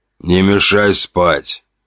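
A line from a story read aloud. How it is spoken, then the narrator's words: Sleepy mumble. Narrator (Russian): пробурчал он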